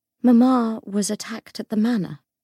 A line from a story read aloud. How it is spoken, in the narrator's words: said Grace, her voice flat